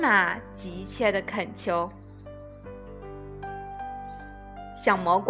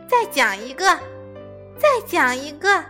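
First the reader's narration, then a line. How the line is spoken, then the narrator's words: Loud. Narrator (Chinese): 爸爸大声的说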